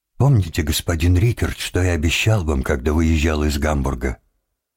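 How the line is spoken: Calm question after tears. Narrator (Russian): Он вытер рукой слезы и спокойно спросил

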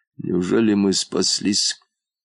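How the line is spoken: Barely audible question. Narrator (Russian): Едва слышно спросил муфта

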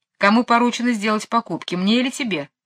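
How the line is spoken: Plain. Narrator (Russian): спросила

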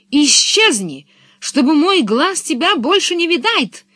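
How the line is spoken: Shouting. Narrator (Russian): закричал он

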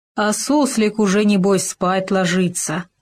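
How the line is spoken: Grumbling. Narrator (Russian): ворчал Хома

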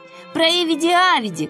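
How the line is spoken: Crowd shouting. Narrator (Russian): кричали одни

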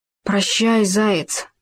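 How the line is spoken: Small trembling voice. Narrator (Russian): сказал он дрожащим голоском

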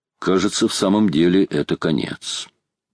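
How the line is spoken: Calm voice. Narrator (Russian): Майор проговорил своим спокойным голосом

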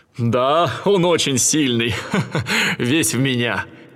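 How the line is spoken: Laughing. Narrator (Russian): Зевс засмеялся и сказал

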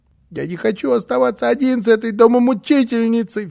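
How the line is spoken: Sobbing. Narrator (Russian): всхлипывал он

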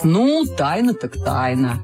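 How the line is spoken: Plain. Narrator (Russian): сказал папа

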